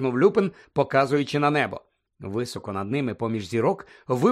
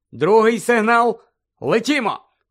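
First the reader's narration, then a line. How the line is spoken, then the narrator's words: Loud command. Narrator (Ukrainian): голосно наказав Люпин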